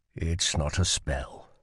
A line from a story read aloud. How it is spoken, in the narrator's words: he said softly